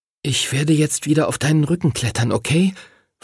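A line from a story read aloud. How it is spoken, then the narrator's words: Whispered. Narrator (German): flüsterte er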